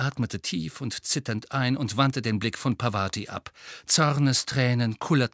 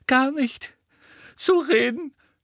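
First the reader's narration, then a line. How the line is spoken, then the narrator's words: Sobbing. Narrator (German): schluchzte sie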